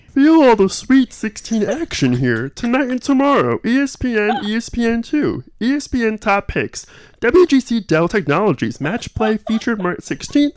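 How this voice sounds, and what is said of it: Kermit the Frog character voice. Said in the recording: “good Kermit the Frog impression”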